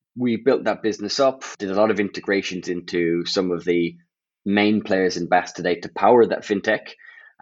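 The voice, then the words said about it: Irish accent. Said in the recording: “you are Irish, you have an Irish accent”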